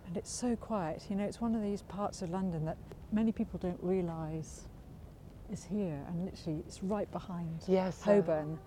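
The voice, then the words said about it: Whispering softly. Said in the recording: “I don't know why I'm whispering, but I feel it.”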